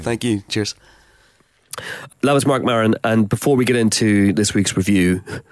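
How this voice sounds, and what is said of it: Congested voice from a cold. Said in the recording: “as you can tell, I have a cold ... I've got a really bad cold”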